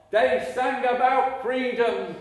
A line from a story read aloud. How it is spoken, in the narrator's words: I shouted after him